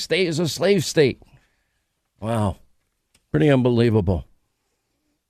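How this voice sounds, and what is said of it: Usual voice. Nothing is said of it.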